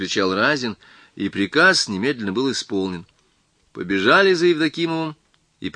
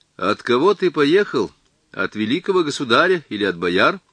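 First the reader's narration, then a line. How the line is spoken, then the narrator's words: Plain. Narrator (Russian): спросил Разин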